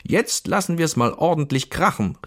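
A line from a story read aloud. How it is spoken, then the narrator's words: Man shouting. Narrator (German): rief der Mann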